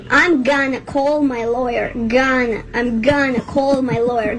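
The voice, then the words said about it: Put-on American English accent. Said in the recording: “I like when she gets the right inflection of the I'm an American ... her accent is perfect”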